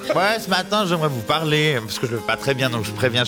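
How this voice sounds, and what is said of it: Genevan French accent. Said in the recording (French): “C'est l'accent genevois si jamais.”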